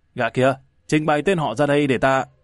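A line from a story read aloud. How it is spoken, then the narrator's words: Barking command. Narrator (Vietnamese): Xích Dương phán quan quát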